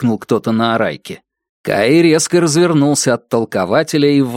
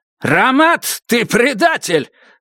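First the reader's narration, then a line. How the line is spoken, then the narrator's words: Shouting. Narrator (Russian): закричал он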